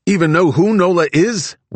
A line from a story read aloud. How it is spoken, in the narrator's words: Wide Eyes shouted